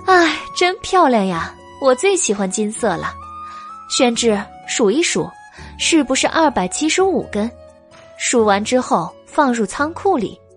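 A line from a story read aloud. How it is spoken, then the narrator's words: Laughing. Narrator (Chinese): 白姬笑道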